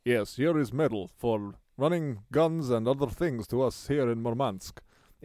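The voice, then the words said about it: Put-on Russian accent. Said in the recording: “Meeting someone from Russia. Can you do both?”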